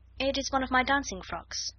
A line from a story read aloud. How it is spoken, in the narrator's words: answered Sarah